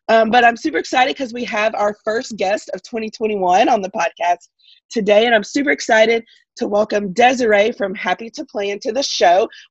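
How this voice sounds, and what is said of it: Slightly congested, different-sounding voice. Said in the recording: “apologizing for my voice today. You might notice it sounds a little bit different. I have a little bit of a cold”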